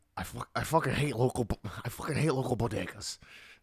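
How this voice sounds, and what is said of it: Bad Colin Quinn impression. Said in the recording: “do a Colin Quinn impersonation ... No, that didn't work ... that was really bad. It was more of a Rich Voss than a Colin Quinn.”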